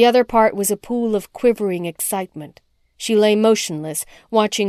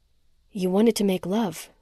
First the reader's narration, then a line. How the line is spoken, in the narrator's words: Rhoda whispered